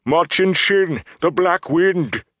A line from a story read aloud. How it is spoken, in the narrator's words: Loyal cried out